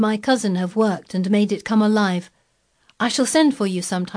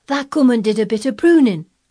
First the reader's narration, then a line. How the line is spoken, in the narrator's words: cried Dickon